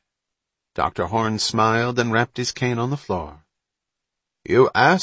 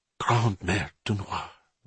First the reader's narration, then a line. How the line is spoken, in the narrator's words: Bonterre whispered